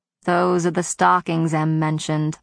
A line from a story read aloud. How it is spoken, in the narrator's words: I groaned